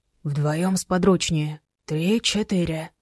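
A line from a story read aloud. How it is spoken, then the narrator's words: Quiet. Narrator (Russian): Максим Новиков тихо сказал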